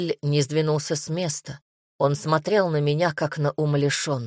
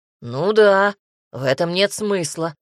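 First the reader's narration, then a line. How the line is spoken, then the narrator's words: Snorting. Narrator (Russian): хмыкнул Джерель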